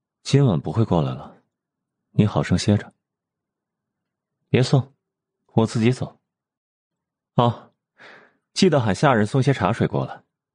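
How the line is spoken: Lowered voice. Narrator (Chinese): 又压低了声音说道

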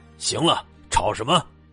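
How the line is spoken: Fierce roar. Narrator (Chinese): 厉吼了一声

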